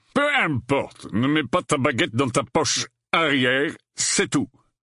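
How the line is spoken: Grumbling. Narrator (French): grogna Folleuil

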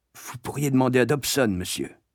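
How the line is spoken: Whisper. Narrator (French): chuchotai-je

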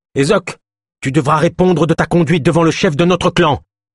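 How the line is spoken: Angry scolding. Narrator (French): gronda Gwenyl

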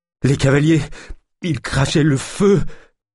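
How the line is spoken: Stammering. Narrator (French): bredouilla Jacquenot

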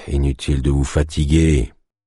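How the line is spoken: Sighed. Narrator (French): soupira Théo

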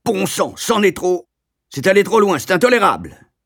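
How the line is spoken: Loud exclamation. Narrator (French): il s'écriait d'une voix forte

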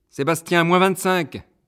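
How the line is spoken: Shouting. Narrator (French): crie Muriel

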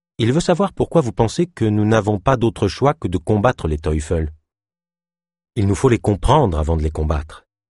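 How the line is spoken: Plain, healer speaking. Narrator (French): répondit le guérisseur

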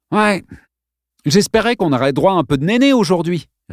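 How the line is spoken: Sniggered. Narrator (French): ricana Digger

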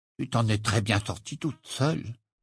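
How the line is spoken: Muttered. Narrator (French): marmonna-t-il

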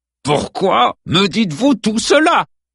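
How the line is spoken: Growled. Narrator (French): gronda Adams

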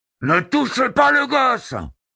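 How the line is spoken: Roared. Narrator (French): rugit l'un d'eux

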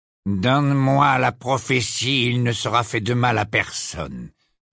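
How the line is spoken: Icy voice. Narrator (French): dit Malfoy d'une voix glaciale

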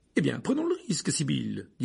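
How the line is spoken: Irritated tone. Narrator (French): dit le professeur McGonagall d'un ton agacé

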